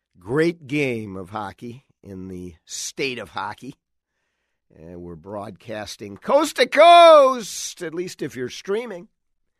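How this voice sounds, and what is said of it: Slightly hoarse voice. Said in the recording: “my voice is a little bit hoarse ... I do not leave there with much of a voice”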